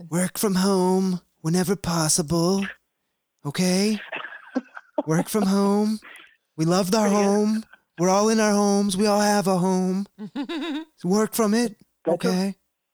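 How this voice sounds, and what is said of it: Imitates another person's voice. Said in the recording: “I'm going to do it in my Trump voice ... I can't do a Trump. I'm going to try.”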